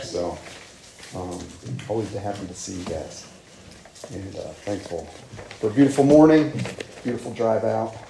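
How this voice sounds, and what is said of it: Slightly rough voice from a cold. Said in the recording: “my voice may be a little rough today. Been battling a bit of a cold”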